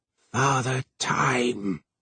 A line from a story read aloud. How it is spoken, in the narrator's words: muttered Twistle